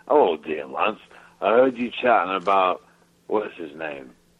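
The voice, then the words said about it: Regional English accent. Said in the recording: “He's got the best English accent. This is my favorite regional accent of Limey.”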